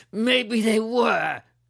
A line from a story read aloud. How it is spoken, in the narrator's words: the kid shouted defiantly